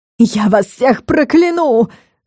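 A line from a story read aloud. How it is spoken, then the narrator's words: Shrieking. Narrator (Russian): Завизжала Горгон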